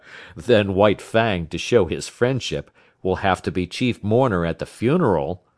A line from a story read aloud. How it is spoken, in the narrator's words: laughed the master